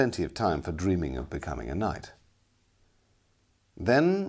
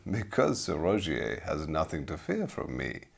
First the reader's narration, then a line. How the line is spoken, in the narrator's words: laughed the man